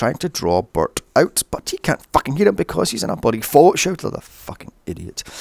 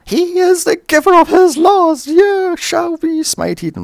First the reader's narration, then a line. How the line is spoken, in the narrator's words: screaming or screeching is torturous